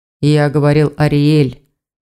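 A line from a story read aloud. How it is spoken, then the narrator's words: Sighing. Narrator (Russian): вздохнул Ивар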